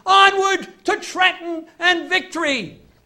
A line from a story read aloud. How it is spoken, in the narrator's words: shouting